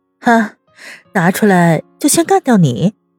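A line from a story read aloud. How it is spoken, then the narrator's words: Dry laugh. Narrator (Chinese): 温之夏干笑两声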